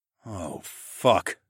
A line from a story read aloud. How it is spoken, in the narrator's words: I groaned